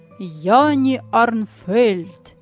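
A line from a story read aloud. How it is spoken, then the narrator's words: Loud friendly smiling reading. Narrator (Russian): приветливый почтальон, улыбаясь, громко прочел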